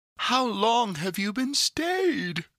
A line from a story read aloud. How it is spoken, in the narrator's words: cried she, gaping, stretching herself as if she had just been waked out of her sleep